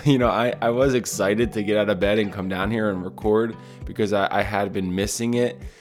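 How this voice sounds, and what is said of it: Tired-sounding voice. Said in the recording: “I feel extra tired this morning ... I can tell in my voice that I'm, I'm a tired man”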